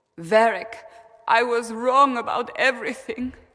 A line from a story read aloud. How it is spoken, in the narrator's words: she sobbed